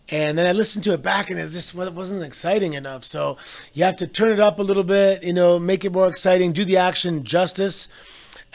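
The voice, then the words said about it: Hoarse, partly lost voice. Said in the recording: “I lost my voice a little bit trying to do the action justice.”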